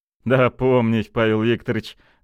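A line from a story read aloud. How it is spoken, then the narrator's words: Forced laugh. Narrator (Russian): натянуто засмеялся Кольцов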